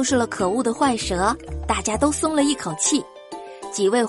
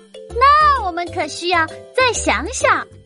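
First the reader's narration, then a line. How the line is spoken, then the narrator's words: Loud rabbit voice. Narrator (Chinese): 小白兔大声的说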